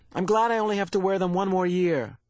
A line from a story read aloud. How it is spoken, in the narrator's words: Lily said irritably